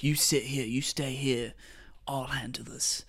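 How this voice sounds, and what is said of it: Poorly done put-on accent. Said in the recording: “I'm doing a terrible job at that accent.”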